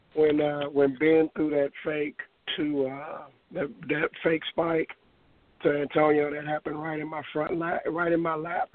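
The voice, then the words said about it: Hoarse, strained, mostly lost voice. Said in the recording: “You have to bear with me, because as you can tell, I lost my voice. Yeah, I lost my voice”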